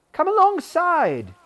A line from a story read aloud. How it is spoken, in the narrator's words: exclaimed Will